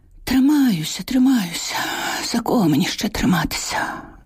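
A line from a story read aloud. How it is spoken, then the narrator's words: Sighing. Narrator (Ukrainian): Зітхнула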